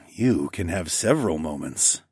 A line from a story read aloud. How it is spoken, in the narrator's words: I growled